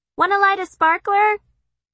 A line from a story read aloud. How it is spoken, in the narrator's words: Kitty hollers